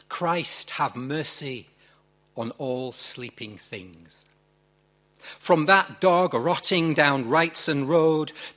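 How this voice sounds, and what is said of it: Yorkshire accent. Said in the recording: “It seems a mockery to read this in a Yorkshire accent.”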